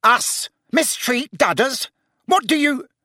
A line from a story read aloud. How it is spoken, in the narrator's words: began Uncle Vernon furiously